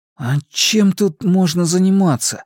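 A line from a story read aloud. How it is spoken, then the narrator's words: Forced out with effort. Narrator (Russian): сумел выдавить Макс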